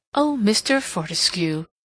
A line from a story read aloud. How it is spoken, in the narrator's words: exclaimed Mrs